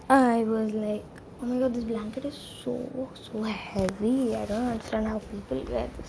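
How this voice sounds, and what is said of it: Whispering. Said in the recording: “I'm so sorry if I'm like whispering right now, because everybody is asleep and I don't want to wake them up”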